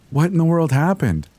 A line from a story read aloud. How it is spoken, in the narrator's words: she asked